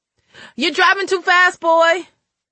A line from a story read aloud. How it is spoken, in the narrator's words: Farrah screamed at the top of her lungs